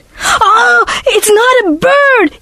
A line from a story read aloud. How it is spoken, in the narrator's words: he screamed